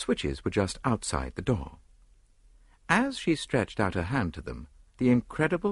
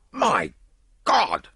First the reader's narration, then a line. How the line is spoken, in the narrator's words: cried Lord Yardley